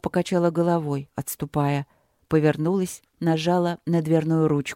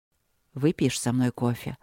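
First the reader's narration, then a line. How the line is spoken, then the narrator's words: Hoarse offer. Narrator (Russian): предложил Люк хрипло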